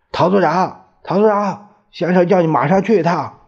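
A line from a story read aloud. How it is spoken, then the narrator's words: Shouting. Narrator (Chinese): 我喊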